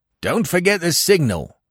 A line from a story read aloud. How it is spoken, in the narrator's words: Weymouth cried after me